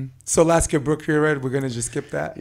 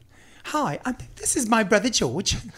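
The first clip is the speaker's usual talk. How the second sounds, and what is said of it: Put-on English accent. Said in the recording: “everyone's in an English accent.”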